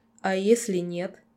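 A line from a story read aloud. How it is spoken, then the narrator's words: Mocking interruption. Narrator (Russian): насмешливо перебил меня Сонхейд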